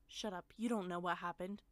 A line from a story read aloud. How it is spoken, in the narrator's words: he barked at her